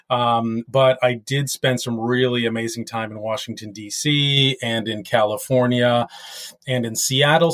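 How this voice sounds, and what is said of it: American accent. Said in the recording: “hence really the American accent.”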